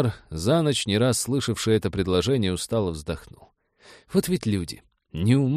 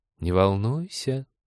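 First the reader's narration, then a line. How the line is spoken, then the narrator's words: Purring. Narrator (Russian): промурлыкала Свитари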